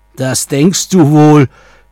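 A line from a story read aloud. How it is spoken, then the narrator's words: Troll screaming. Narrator (German): schrie da der Troll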